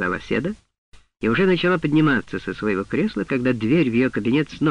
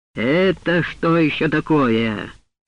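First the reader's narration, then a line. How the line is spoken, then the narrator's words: Loud, stern. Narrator (Russian): громко и строго сказал он лилипутам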